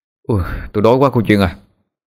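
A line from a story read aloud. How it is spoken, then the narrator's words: Weary sigh. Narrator (Vietnamese): Anh thở dài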